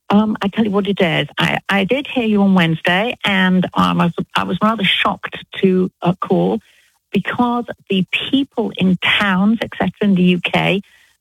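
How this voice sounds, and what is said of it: British English accent. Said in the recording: “you don't sound like you're from Alabama... I'm British... Did you hear a British accent or an Alabama accent?... I love her accent... I love an English accent also”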